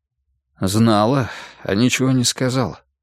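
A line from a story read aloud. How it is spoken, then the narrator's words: Husky, reproachful yet relieved. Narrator (Russian): хрипловато произнес Олег со странной смесью упрека и облегченного успокоения в голосе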